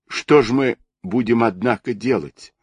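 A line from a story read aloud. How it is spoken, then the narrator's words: Tearful, through sobs. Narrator (Russian): продолжал он сквозь слезы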